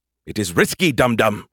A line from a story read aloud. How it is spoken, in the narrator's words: he snapped